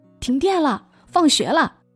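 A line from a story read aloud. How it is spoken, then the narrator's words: Shouting. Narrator (Chinese): 走廊里有人喊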